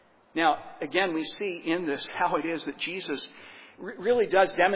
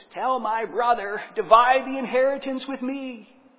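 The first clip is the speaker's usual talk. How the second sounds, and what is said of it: Whiny voice. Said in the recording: “I really want to do a whiny voice,”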